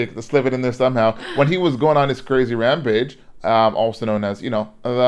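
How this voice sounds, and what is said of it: Usual voice. Nothing is said of it.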